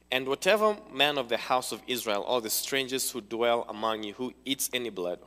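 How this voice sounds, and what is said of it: Speaks with an accent. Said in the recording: “I have an accent. So I might say some words that would not make sense to any of you.”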